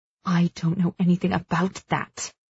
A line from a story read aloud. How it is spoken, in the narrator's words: she hisses, barely audible